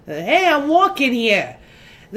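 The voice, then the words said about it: Put-on Italian-American New York accent. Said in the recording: “the American-Italian accent.”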